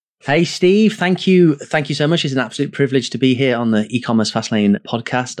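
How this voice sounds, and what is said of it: English accent. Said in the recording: “I can tell by your accent. I know you're in England right now.”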